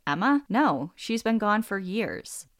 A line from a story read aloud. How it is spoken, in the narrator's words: chuckled and said